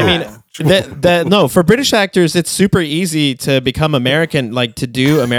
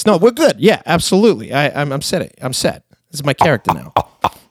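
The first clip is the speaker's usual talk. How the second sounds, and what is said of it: Put-on New York American accent. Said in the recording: “oh, what's the accent? New York? Okay, so I just sound a little less dumb ... And then I suddenly talk like this”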